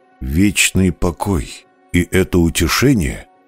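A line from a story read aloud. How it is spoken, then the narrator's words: Quiet repetition. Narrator (Russian): Повторил тихо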